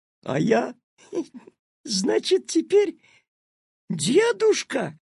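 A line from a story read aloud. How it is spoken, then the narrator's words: Bursting into laughter. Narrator (Russian): расхохотался Петя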